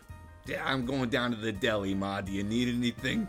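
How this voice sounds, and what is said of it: Exaggerated New York accent. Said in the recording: “the most egregious New York accents that you could possibly have ... It's a fun accent to do. ... It's an easy accent to do.”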